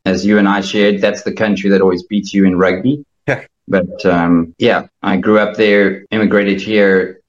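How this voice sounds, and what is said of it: South African accent. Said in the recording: “The awesome accent is from South Africa.”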